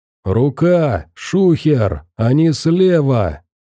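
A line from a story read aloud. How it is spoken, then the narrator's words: Bandit shouting. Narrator (Russian): закричал какой-то бандит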